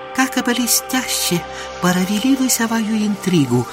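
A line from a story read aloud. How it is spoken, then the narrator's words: Whispering monk. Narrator (Russian): прошептал бедный монах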